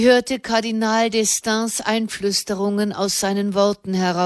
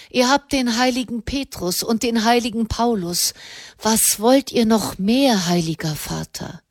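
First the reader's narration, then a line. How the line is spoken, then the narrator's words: Sighing. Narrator (German): seufzte er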